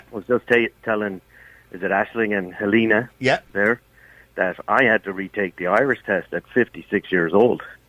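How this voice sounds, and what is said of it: Irish speaker with a noticeable accent. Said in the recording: “I detect an accent in your voice ... I was originally from Galway ... You were obviously in the United States”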